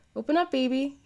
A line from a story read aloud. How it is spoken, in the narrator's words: cooed